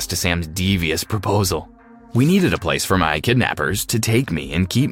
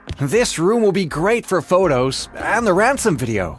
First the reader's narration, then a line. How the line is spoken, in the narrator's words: Sam said excitedly